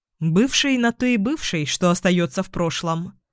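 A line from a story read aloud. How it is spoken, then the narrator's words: Calm. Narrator (Russian): спокойно произнес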